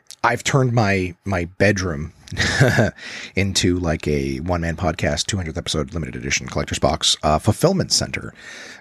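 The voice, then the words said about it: Quiet smooth jazz radio voice. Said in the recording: “I'm doing this kind of smooth jazz radio voice ... I also don't want to be rude and wake everybody else up”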